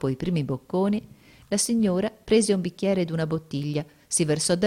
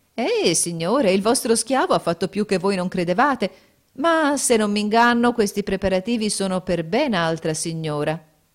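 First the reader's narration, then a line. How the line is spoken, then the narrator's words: Delighted lady exclaiming. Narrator (Italian): La signora, al contrario, rapita da quel piacevole spettacolo, esclamò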